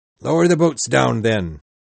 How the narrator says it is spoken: shouted Captain Ahab

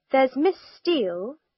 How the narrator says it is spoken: she said slowly

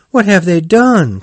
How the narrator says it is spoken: cried Toad

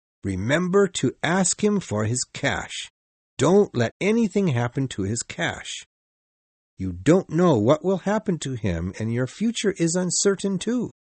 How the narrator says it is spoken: he added firmly

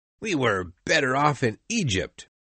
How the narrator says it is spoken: cried

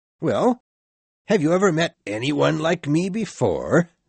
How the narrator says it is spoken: said the ghost of Christmas present, laughing loudly

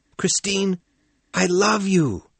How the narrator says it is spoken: Raoul yelled

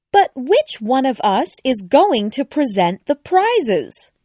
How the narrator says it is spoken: a voice cried

